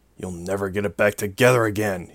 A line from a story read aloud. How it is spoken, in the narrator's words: he grumbled